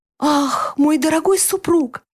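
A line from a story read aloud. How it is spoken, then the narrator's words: Pleasantly surprised exclamation. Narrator (Russian): воскликнула, и в голосе ее с легкостью можно было расслышать приятное удивление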